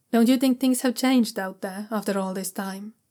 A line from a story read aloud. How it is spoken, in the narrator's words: Jiaolan asks calmly